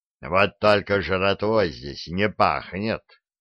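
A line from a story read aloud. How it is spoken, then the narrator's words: Angry grumble, giant. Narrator (Russian): сердито буркнул гигант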